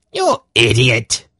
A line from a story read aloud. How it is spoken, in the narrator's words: he snapped at Yarblick